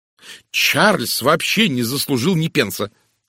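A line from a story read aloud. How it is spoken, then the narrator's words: Angry declaration. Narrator (Russian): сердито заявила мисс Лоусон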